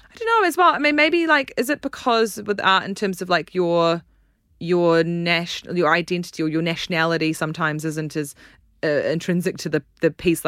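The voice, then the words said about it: New Zealand accent. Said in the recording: “you can tell I'm from New Zealand from my accent.”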